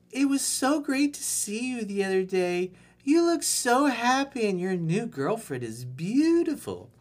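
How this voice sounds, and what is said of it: Man putting on girly voice. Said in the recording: “girl voice”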